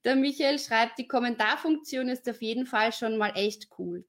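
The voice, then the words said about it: Viennese German accent. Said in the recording (German): “du hast einen tollen Akzent. Ja, wienerisch, ja.”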